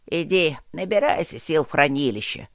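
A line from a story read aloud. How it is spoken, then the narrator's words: Grumbled. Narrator (Russian): проворчал он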